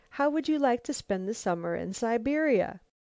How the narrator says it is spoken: she exclaimed

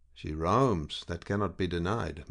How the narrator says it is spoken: murmured Payroll, with an uneasiness which he did not attempt to conceal

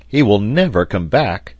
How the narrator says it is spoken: exclaimed Pencroft

